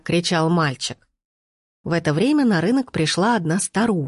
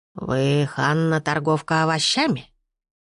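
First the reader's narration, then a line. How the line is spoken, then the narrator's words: Unpleasant hoarse old woman. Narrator (Russian): спросила старуха неприятным хриплым голосом, беспрестанно тряся головой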